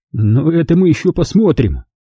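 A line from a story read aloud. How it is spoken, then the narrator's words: Dry reply. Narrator (Russian): сухо ответил он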